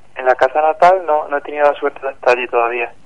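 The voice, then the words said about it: Córdoba Spanish accent. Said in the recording (Spanish): “tu acento no es muy de aquí, ¿no? ... soy de Córdoba.”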